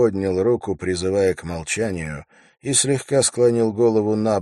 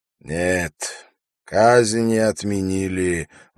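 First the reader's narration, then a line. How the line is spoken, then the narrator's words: Sighing. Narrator (Russian): вздохнул Умар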